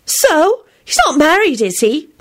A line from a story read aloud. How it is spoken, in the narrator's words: Ginny replied triumphantly